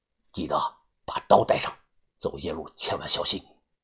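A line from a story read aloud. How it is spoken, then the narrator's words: Soft whispered reminder. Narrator (Chinese): 于哥又小声的叮嘱我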